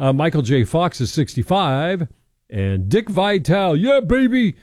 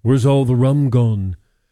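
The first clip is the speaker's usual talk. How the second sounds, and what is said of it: Imitates another person's voice. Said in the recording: “my Johnny Depp imitation of Captain Jack Sparrow ... It's not very good.”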